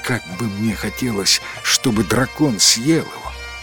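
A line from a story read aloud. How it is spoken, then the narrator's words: Several people whispering. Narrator (Russian): несколько человек из жителей города прошептало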